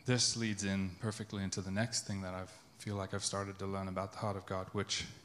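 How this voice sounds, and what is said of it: Accent drifting toward American. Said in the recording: “you hear my accent going American there? ... Yeah. Clock that.”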